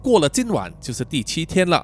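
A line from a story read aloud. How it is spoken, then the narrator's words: Flat, indifferent. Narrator (Chinese): 老刘淡淡的说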